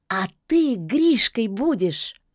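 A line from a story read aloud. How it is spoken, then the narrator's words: Joyful announcement. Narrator (Russian): радостно возвестила Яга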